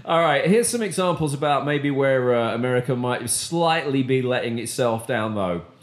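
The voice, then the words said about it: British accent. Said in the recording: “when she got hit with the British voice”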